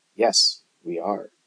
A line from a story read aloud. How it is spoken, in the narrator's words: murmured Nancy